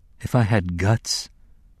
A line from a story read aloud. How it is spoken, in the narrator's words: she murmured